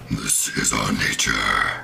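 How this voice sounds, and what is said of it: Scary, ominous character voice. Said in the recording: “in this very scary, ominous voice ... it's just the scariest voice I can do”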